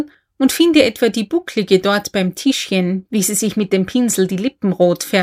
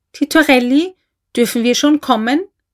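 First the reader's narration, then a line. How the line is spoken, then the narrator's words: Timid little voice. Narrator (German): rief hinter der Tür ein Stimmchen, zart und ängstlich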